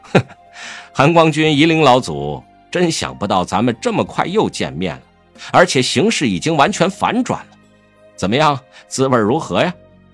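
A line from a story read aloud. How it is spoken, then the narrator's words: Scoffing laugh. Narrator (Chinese): 苏舍他哼地笑了一声道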